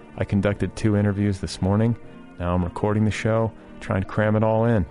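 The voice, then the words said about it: Tired-sounding voice. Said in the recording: “You can hear the fatigue in my voice, can you not?”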